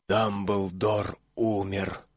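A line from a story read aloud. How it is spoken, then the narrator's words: Whispered. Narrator (Russian): прошептал господин Уизли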